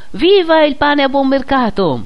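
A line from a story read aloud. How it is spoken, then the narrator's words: Someone shouting. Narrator (Italian): uno gridò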